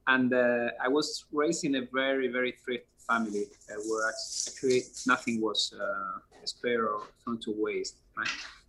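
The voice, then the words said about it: Spanish accent in English. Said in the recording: “I'm original from Europe, from Spain, as you can probably see from my accent.”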